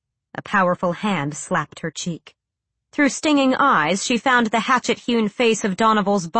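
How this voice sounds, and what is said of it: Usual voice. Nothing is said of it.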